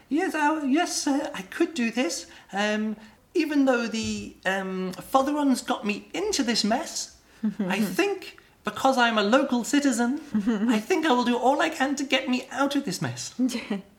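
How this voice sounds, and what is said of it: High-pitched character voice. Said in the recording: “He has a high voice, doesn't he?”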